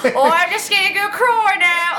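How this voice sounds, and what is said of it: Put-on Cockney accent. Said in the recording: “Cockney accent”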